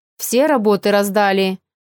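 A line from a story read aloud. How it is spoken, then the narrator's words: Menacing question. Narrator (Russian): грозно поинтересовался поэт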